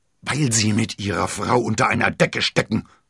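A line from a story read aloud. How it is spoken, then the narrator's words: Cardinal roaring. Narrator (German): brüllte der Kardinal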